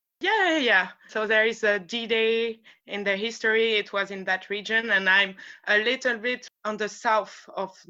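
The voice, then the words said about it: French accent speaking English. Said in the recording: “with the French accent ... my accent is betraying me. Yeah, I'm French.”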